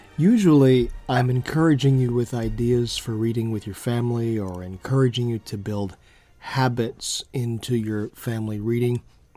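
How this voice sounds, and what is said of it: Voice slightly off, strained. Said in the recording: “I've been a little under the weather for almost a week, and so my voice isn't quite what it should be”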